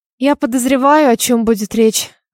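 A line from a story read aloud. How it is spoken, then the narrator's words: Sighing. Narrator (Russian): вздохнула я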